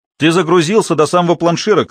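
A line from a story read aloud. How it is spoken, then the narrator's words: Shouting. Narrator (Russian): крикнул Грир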